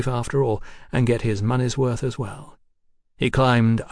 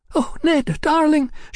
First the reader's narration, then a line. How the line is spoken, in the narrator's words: she yelped suddenly